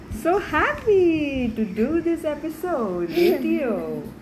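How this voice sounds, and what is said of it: Happy, cheerful delivery. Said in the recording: “Say it in a happy accent.”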